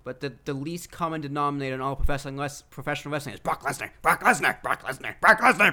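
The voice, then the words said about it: Imitates another person's voice. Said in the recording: “Was that your Paul Heyman impression? ... Yes, that was my Paul Heyman.”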